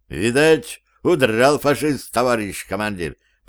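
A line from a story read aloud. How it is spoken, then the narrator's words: Cheerful guess. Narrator (Russian): предположил сержант Хакимов, весело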